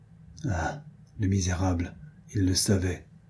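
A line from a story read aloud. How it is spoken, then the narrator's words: Whispered. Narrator (French): murmura Diane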